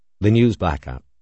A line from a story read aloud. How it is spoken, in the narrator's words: Floyd said flatly